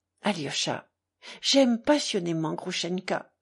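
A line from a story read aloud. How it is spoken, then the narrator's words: Trembling, tearful voice. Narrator (French): dit-il tout à coup d'une voix tremblante où il y avait des larmes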